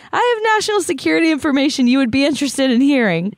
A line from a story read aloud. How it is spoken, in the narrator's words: when that didn't work, he yelled